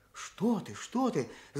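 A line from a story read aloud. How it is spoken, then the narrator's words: Whispering old man. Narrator (Russian): зашептал дядя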